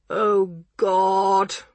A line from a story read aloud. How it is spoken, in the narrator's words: moaned Bomber